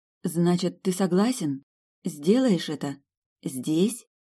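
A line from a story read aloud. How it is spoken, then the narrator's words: Hesitant question. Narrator (Russian): неуверенно спросила Элис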